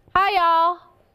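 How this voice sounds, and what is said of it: Put-on Southern accent. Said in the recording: “a more southern accent”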